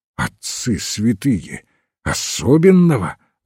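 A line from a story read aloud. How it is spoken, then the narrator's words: Horrified exclamation. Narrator (Russian): воскликнул Ивен, передернувшись от ужаса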